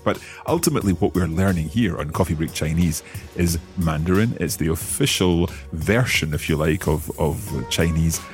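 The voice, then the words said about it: Scottish accent. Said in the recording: “I speak English, but I speak it with my Scottish accent.”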